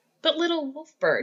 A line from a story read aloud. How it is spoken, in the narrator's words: she laughed at him